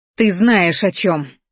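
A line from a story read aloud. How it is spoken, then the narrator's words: Barked. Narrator (Russian): рявкнула я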